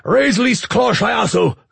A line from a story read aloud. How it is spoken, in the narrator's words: Zarnok roared